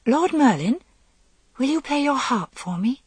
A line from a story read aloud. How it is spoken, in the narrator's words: She hardened her heart and said sweetly